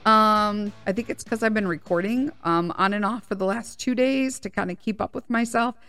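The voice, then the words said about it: Weird, off-sounding voice. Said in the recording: “I got a weird voice today”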